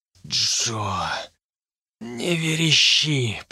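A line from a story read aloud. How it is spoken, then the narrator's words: Hoarse croak. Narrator (Russian): прохрипел я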